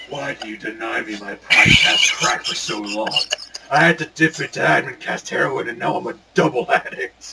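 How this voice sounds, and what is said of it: Imitates another person's voice. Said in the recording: “Braun Strowman's, like, accent, like, his voice”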